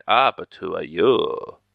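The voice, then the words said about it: Put-on German accent. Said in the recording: “that's my German accent”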